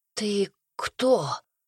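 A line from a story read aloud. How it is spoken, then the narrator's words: Barely audible rasp. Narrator (Russian): прохрипел он едва слышно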